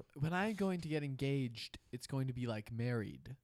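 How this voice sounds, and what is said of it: Imitates another person's voice. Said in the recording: “vague accent I can't do an impression of... Nah, that was pretty bad.”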